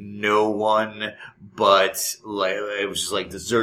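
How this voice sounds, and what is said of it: Usual voice. Nothing is said of it.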